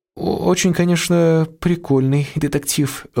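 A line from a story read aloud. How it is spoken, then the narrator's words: Timid. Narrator (Russian): робко произнесла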